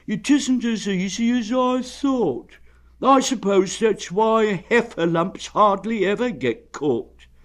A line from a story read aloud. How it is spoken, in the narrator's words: added sadly